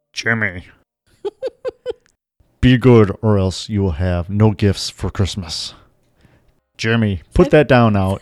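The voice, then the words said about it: Stern parental dad voice. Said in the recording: “That's your dad voice. ... Yes, it's trying to be my dad voice.”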